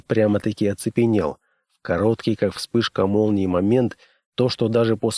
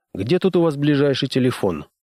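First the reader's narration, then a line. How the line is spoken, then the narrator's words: Casual questioning tone. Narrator (Russian): Небрежным тоном поинтересовался он у девушки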